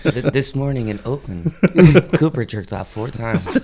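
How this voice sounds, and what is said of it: Low-key NPR radio voice. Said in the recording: “I like the NPR voice ... like, hello, like, low-key.”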